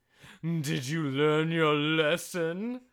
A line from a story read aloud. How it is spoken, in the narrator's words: He roared